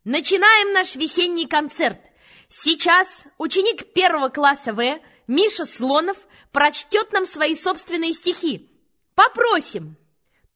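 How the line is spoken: Loud announcer voice. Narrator (Russian): Она сказала громким голосом, как по радио

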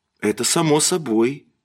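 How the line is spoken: Quiet. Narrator (Russian): тихо сказала она

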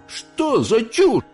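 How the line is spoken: Shouted. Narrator (Russian): закричал принц

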